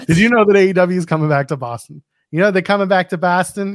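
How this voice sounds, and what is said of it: Bad put-on Boston accent. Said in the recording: “you gotta do in a Boston accent... It's the worst Boston accent you can think of.”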